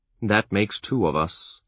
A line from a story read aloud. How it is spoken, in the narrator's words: Chade grumbled